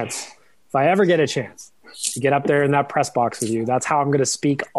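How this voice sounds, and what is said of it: Usual voice. Nothing is said of it.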